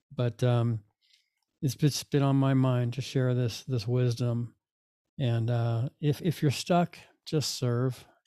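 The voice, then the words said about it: Tired, late-night voice. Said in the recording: “I'm recording this at 11:30 at night ... I should be in bed. You probably hear it in my voice.”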